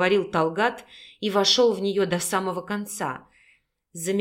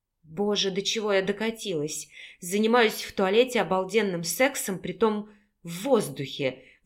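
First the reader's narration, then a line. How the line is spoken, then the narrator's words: Breathless, happy. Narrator (Russian): выдохнула Наталья, счастливо улыбаясь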